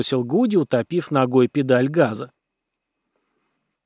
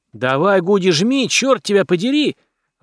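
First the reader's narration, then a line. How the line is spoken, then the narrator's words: Shouting in unison. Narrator (Russian): В один голос завопили мы с Патси, Норрисом и Джека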